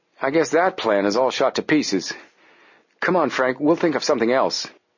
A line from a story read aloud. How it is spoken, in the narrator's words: said Joe gloomily